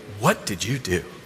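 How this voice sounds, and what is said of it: Disapproving, accusatory voice. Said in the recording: “in her disapproving voice”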